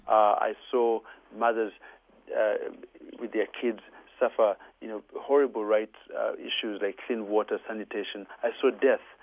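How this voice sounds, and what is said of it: Ugandan accent. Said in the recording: “I'm originally Ugandan, as you can tell from my beautiful accent.”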